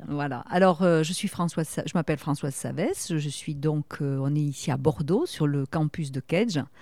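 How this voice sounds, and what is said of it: Southwestern French accent. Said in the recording (French): “comme mon petit accent l'indique, je suis une fille du sud-ouest et particulièrement de la région de Toulouse”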